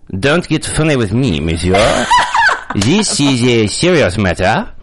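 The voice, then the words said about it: Put-on French accent. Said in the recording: “French accent? Can you still do it?”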